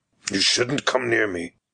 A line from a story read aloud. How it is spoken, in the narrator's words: he growled